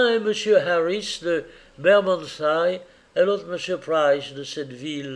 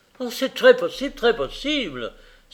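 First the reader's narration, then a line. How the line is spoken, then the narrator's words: Exclaimed. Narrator (French): s'écria M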